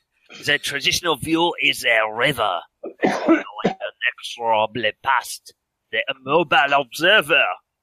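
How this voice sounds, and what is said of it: Put-on foreign accent. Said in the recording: “made myself laugh with my accent”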